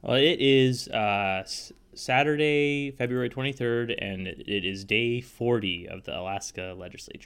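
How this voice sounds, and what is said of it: Slightly congested voice from cold. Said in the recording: “I've got a little bit of a cold”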